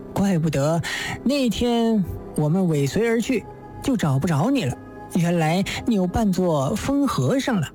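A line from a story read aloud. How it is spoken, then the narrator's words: Laughing. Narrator (Chinese): 乔太笑道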